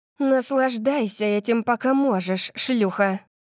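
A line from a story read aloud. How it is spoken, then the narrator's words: Growl. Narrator (Russian): прорычала она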